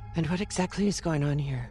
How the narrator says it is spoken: She said in her husky voice

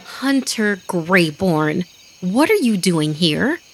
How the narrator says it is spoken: I exclaimed

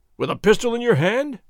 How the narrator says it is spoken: Ramon cried

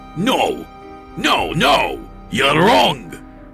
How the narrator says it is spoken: he shouted at me

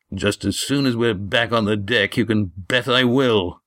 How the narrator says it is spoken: growled Gar

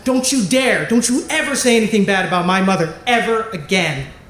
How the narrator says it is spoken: Sal, she snapped back and she said

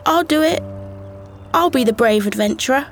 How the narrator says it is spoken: A voice from the back called out

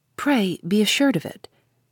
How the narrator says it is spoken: he made that brief reply warmly

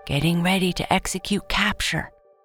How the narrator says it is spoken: Alexa whispered into her walkie-talkie

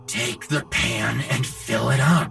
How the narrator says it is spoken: his father hissed

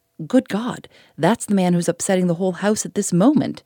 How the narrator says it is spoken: exclaimed the landlord

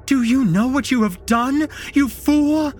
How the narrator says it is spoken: screamed at me

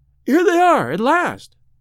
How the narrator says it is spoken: she cried

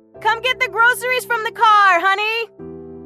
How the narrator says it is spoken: She shouted up the stairs

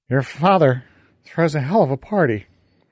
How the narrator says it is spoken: Fergal slurred

